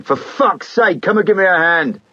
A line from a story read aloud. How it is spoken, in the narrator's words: he shouted to Martin